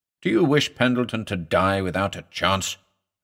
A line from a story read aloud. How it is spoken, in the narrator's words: I asked gravely